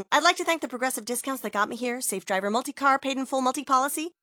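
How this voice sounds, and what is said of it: Gushing Hollywood acceptance speech voice. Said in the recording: “my impression of a Hollywood acceptance speech”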